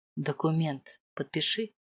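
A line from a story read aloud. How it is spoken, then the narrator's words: Whisper in ear. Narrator (Russian): шепнул Маркус в ухо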